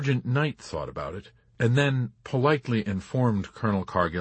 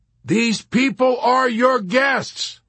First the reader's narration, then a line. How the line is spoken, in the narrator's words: he shouted suddenly